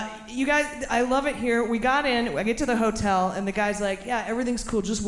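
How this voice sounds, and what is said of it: Usual voice. Nothing is said of it.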